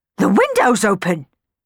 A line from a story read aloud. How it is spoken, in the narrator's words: she exclaimed suddenly